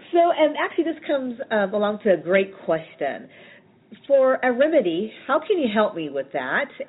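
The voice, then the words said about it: Raspy hoarse voice. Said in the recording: “excuse my voice. It's very raspy. It's because I have a sore throat and a cold.”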